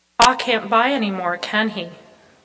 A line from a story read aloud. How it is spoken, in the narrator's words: Laura said